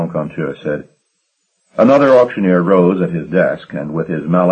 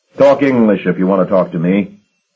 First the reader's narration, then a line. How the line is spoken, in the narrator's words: Sour Billy said sharply